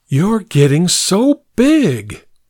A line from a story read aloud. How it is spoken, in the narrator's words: greeted me with a moan